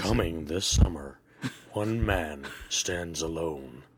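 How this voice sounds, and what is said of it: Deep movie trailer announcer voice. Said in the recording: “clearly is playing with his sexy voice ... Get you a job in the radio industry ... He'll be that new the trailer announcer ... That sounds like a really good Liam Neeson”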